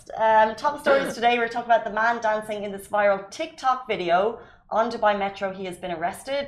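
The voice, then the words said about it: Irish accent. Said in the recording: “For an Irish person, that's a lot of teas ... you guys say the teas with a little bit of an accent”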